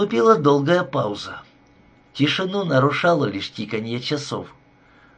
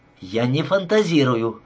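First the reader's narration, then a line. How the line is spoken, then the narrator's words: Snapped. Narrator (Russian): огрызнулась она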